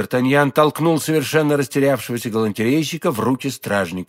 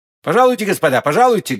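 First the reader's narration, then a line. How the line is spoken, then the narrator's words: Loud. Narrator (Russian): громко произнес Д'Артаньян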